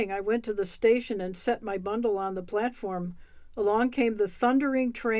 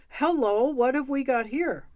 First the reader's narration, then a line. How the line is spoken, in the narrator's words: When the conductor saw my queer baggage, he cried